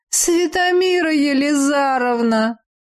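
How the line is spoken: Howling in chorus. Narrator (Russian): взвыли маги

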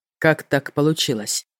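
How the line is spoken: Cold question. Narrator (Russian): спросил холодно

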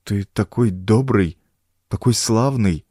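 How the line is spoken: Confused mumbling. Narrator (Russian): растерянно бормотал я

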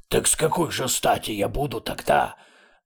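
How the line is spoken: Indignant start. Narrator (Russian): Начала было с негодованием левая голова

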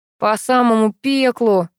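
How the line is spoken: Grumbling. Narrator (Russian): проворчал Буравин

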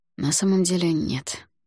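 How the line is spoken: Sigh. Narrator (Russian): вздохнул

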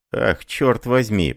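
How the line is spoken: Muttering. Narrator (Russian): пробормотал

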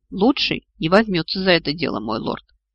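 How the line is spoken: Quiet remark. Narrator (Russian): тихо заметил Орту

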